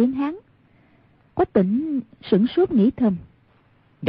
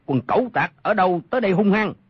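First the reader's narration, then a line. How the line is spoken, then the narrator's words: Shout from darkness. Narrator (Vietnamese): Trong bóng tối có một người quát lên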